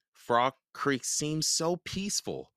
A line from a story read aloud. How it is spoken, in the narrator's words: said Jack